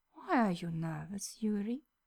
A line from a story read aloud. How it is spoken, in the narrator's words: Victor asks in a hushed murmur